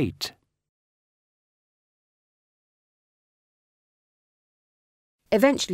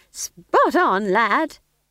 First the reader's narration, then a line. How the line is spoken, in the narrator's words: said Nanny cheerfully